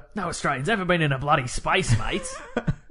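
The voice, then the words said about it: Broad Ocker Outback Australian accent. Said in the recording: “my regular accent and my Ocker Outback Australian accent”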